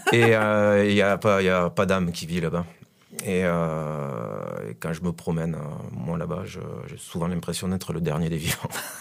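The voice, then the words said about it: Regional French accent, not Parisian. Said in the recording (French): “Ça s'entend à votre accent, hein, vous n'êtes pas de Paris.”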